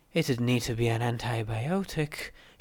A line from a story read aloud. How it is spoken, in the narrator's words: she muttered weakly